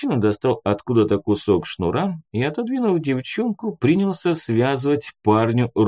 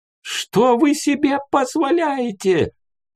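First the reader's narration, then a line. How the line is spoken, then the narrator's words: Hysterical shriek. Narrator (Russian): взвизгнул истерящий мужичок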